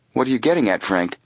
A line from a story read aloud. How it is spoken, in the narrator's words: his brother asked quickly